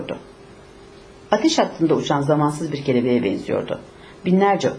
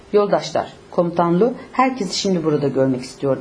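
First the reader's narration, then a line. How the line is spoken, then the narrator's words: Plain. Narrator (Turkish): dedi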